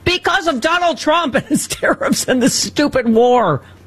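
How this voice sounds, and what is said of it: Yelling, loud angry voice. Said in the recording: “I'm yelling”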